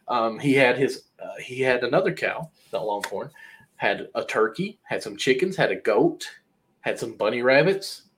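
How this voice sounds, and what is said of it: Southern American accent. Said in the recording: “Now you're really thinking I'm hillbilly as all get out ... I, from my voice, my accent, I know ... yes, you are with the accent”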